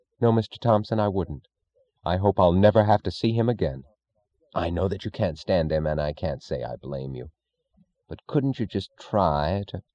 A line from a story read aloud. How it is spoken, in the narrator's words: the voice of a meaningless stranger saying coldly